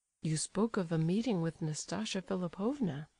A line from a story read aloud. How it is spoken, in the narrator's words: he said at last, in a low voice